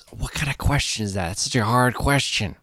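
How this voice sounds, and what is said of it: Imitates another person's voice. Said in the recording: “my Nick Cage impression ... It's basically Owen Wilson.”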